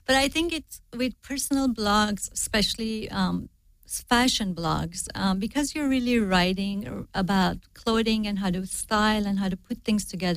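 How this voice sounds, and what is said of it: Non-native English accent. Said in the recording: “I have an accent. I'm not, my English isn't perfect.”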